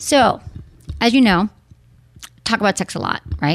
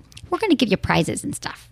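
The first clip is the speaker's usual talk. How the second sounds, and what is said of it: Exaggerated Michigan accent. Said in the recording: “I just did my Michigan accent ... I usually like my Michigan accent”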